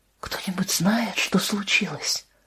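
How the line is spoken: Whispered question. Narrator (Russian): шепотом спросила Анна

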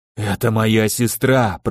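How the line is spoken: Hoarse rasp. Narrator (Russian): прохрипел горец

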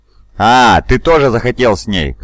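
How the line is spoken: Laughing. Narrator (Russian): засмеялся

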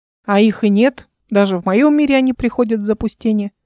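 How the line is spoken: Plain. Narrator (Russian): сказал Шейси

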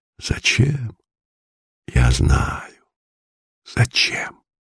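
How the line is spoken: Old man whispering. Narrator (Russian): старика, его губы шептали

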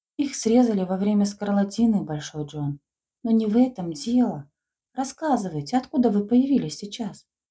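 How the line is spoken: Joyful questioning. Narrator (Russian): Радостно расспрашивала Лида

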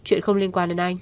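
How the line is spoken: Cold, trembling, through clenched teeth. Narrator (Vietnamese): Cô lạnh lùng, môi run run cắn răng nói

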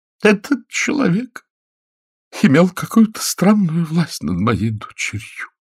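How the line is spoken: Sobbing while speaking. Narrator (Russian): рыдая говорила

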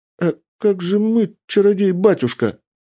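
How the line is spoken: Timid girl asking. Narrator (Russian): робко спросила девушка

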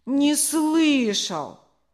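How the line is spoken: Boy pleading. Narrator (Russian): взмолился мальчик

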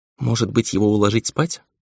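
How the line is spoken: Quiet suggestion. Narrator (Russian): тихо предложила Нельга

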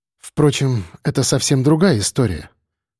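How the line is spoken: Calm. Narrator (Russian): спокойно добавила Женя

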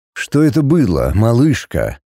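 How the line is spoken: Quiet, deceptively calm. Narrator (Russian): Тихо, с обманчивым спокойствием спросил он

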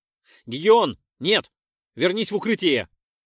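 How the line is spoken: Shouted. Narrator (Russian): выкрикнул я

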